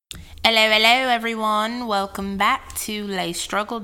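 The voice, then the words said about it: Put-on Australian accent. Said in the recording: “Australian accent.”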